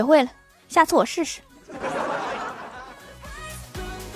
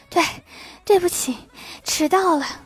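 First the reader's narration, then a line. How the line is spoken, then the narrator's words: Breathless, halting. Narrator (Chinese): 气喘吁吁地说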